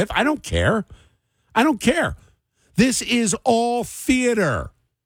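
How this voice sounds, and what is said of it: Aggravated, angry-sounding voice. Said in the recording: “as you can probably hear in my voice, I'm aggravated”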